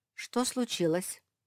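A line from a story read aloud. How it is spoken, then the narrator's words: Plain. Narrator (Russian): спросила старшая сестра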